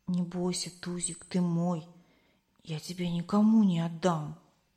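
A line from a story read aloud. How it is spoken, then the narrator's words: Gentle whisper. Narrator (Russian): Костя зашептал щенку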